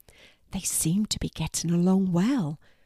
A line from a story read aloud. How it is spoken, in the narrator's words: whispered Mum to Maddie